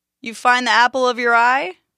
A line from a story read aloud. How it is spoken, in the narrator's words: called out to Dimitri